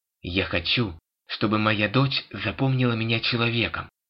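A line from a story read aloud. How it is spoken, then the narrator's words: Snapping retort. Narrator (Russian): огрызнулась Келли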